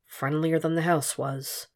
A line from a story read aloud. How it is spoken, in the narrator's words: muttered